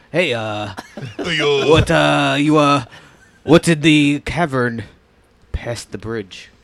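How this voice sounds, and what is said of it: Mediocre fake Japanese accent. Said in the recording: “Your Japanese accent is mediocre at best.”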